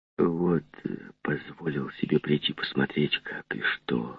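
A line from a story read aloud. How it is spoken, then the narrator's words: Timid apologetic whisper. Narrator (Russian): шепнул, словно бы извиняясь и робея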